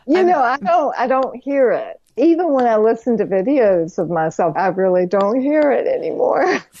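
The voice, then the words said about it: North Carolina Southern accent. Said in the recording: “where your awesome accent comes from ... loving the North Carolina accent”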